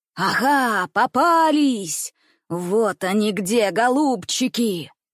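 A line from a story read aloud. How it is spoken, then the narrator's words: Booming frightening voice. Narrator (Russian): прогремел страшным голосом лесной бродяга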